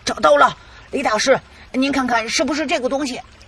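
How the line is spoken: Loud shout. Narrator (Chinese): 豪哥的两个队员大声的喊道

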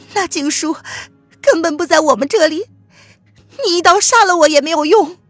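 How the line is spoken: Trembling voice. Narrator (Chinese): 岳秀宁颤声道

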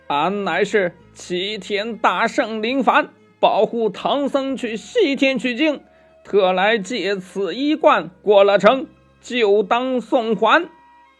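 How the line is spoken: Loud shout. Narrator (Chinese): 悟空高声叫道

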